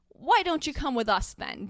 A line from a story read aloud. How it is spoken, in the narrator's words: Dumbledore cried kindly